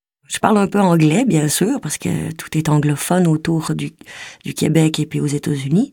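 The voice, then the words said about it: Québécois French accent. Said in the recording (French): “il faut que je maquille mon accent. Et je peux pas parler comme ça au théâtre parce que c'est trop spécifique... si je parle comme ça au théâtre, ça se peut pas. J'ai l'impression d'entendre une Québécoise.”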